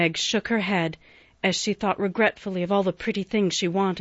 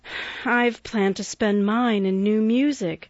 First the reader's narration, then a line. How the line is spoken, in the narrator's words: said Beth with a little sigh, which no one heard